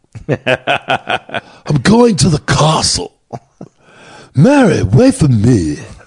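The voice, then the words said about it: Keanu Reeves Dracula accent impression. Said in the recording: “Keanu Reeves in Dracula.”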